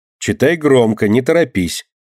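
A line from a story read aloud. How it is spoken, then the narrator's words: Stern warning. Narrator (Russian): строго предупредила Алина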